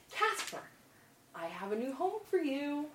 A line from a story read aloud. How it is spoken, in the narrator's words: whisper, excitedly